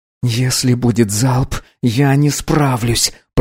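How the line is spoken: Hoarse wheeze. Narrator (Russian): прохрипел Артур

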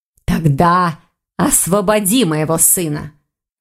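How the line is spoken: Growling. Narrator (Russian): зарычала леди Броган

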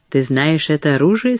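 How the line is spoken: Plain. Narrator (Russian): спросила она

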